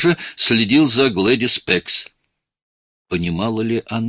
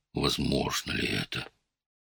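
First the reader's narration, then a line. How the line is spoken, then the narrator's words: Muttering. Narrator (Russian): Фабер словно бормотал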